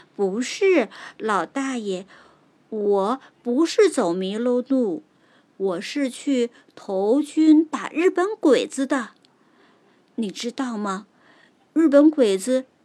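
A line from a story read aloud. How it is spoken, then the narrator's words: Smiling reply. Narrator (Chinese): 小木人儿含笑的回答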